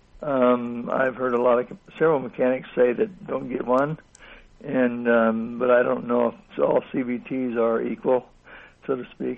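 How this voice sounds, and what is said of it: Rough voice. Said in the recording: “Pardon my voice. A little rough today”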